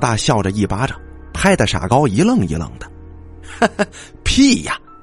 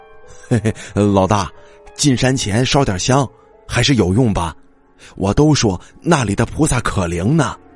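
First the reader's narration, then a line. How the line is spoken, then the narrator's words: Foolish giggling. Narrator (Chinese): 傻高傻笑着说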